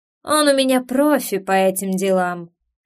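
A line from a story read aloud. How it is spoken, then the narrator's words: Woman's snorting smirk. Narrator (Russian): хмыкнула женщина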